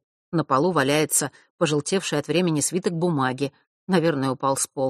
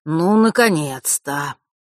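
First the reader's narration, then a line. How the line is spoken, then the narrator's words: Relieved exhale. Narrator (Russian): с явным облегчением выдохнул Фэш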